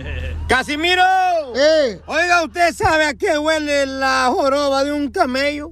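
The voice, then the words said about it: Loud shouting voice. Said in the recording (Spanish): “estás gritando como si fueras vieja de vecindad”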